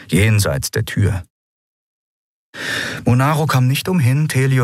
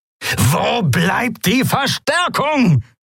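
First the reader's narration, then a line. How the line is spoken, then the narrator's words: Roaring. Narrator (German): brüllte Monaro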